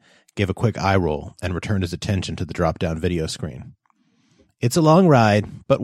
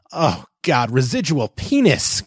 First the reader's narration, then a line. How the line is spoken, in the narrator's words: Christopher bellowed